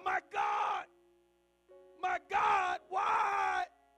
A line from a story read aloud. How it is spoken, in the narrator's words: Jesus is going through such mental anguish Then he shouts out